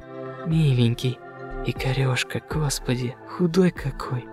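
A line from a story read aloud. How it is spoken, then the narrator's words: Incoherent muttering. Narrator (Russian): Она бормотала еще что-то свое, бабье, бессмысленное и нелепое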